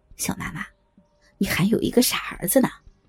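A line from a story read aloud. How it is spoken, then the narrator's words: Sinister yet gentle. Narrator (Chinese): 小伟阴森森的笑着，用温柔的口气说道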